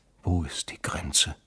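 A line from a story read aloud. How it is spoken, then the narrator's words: Whisper. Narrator (German): hatte er geflüstert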